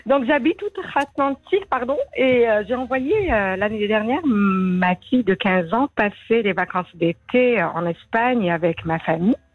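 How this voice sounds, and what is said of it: Slight accent. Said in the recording (French): “Avec un petit donc, accent”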